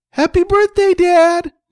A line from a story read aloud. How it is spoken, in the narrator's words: said excitedly